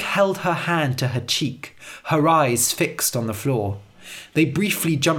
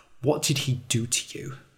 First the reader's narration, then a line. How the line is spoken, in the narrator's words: she asked quietly